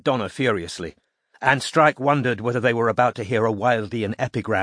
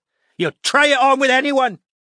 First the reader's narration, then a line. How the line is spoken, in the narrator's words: shrieked Donna